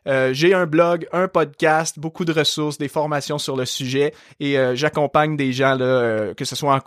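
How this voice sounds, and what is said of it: Light Québécois French accent. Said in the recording (French): “tu as un léger accent ... Je suis québécois ... j'ai hérité de mon bel accent”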